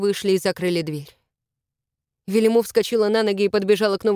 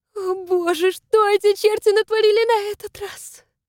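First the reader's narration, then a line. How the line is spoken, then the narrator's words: Moaned. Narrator (Russian): простонала она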